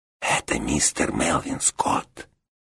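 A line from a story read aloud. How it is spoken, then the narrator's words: Whispered explanation. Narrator (Russian): шепотом пояснил Кузьма Кузьмич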